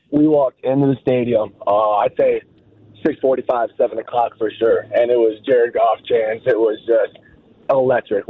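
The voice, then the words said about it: Hoarse, worn-out voice. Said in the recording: “my voice is shot. I'm not going to be able to talk for the next 3 days”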